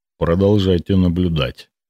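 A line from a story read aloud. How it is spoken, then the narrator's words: Plain. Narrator (Russian): сказал он наконец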